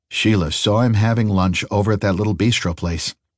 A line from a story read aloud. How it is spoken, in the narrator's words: said Bill